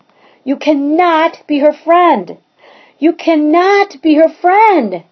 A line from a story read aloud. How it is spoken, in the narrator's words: shouted Evan